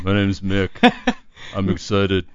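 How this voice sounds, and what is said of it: Impression of a roommate's voice. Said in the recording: “doing an impression of our roommate Ryan”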